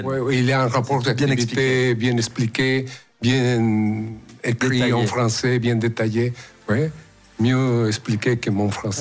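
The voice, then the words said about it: Slight foreign accent in French. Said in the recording (French): “ce petit accent d'ailleurs”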